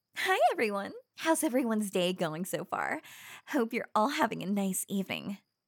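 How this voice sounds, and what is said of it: YouTube presenter voice. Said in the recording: “doing my YouTube voice”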